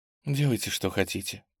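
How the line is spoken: Whisper through covering hands. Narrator (Russian): прошептала Надежда Ивановна, не отрывая рук от лица

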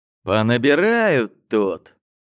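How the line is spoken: Mock-angry exhale. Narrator (Russian): притворно злобно выдохнул

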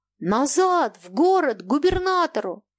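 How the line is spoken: Shouting. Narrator (Russian): Кононов кричал капитану

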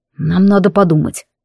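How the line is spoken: Beast tamer's grumble. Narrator (Russian): буркнул мой заклинатель зверей

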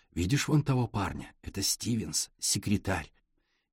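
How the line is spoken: Young man, low voice. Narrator (Russian): молодой человек говорил вполголоса

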